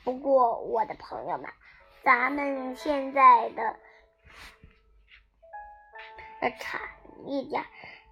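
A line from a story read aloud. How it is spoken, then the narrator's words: Grinning fox. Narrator (Chinese): 狐狸先生咧嘴笑着说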